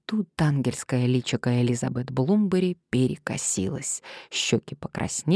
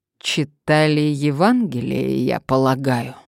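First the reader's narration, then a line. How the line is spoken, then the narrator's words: Breathless words through teeth. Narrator (Russian): процедил Томас, с трудом восстановив дыхание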